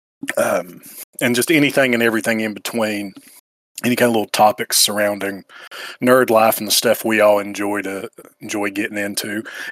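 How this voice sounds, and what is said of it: Appalachian Eastern Kentucky accent. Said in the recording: “I don't know if you can tell by my voice, but I'm from smack dab in the Lord's country in the hills of Appalachia of Eastern Kentucky”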